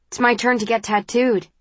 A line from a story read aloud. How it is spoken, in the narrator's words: she says